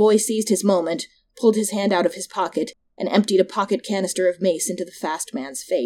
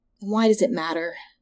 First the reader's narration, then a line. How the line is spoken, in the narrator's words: the boy sighed